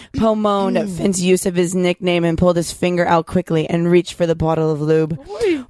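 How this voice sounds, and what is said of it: Sultry, seductive reading voice. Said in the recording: “your sexy voice. ... My sexy voice.”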